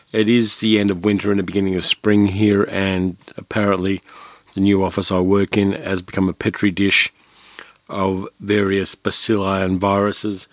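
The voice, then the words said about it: Voice sounding a bit odd. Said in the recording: “I am still recovering from my cold, so my voice sounds a bit odd today.”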